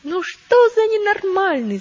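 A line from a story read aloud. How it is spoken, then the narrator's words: Shouting. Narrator (Russian): закричали они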